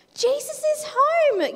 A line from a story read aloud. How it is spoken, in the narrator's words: yelled his friends